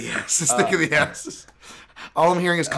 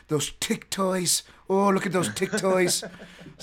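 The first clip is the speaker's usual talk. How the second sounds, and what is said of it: Poor imitation of an Irish accent. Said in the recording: “Conor McGregor's voice in my head ... Apologies for the terrible accent.”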